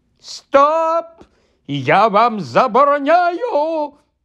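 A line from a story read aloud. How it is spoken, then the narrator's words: Panicked shriek. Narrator (Ukrainian): панічно заверещав дядько Вернон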